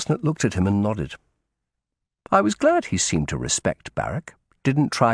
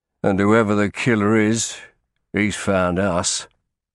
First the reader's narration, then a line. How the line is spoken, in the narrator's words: Barrack added grimly